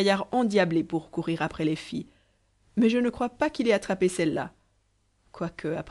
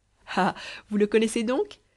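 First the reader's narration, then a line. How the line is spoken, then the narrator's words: Laughing innkeeper. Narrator (French): dit en riant le cabaretier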